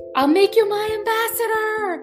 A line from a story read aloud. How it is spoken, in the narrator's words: he yelled